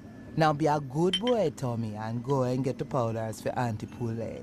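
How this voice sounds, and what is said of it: Mastered accent, Miss Cleo-like character. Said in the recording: “She's really got the accent down now. ... She finally mastered it for this weird cameo in Grand Theft Auto Vice City ... she's playing some other character. And like, who's basically Miss Cleo.”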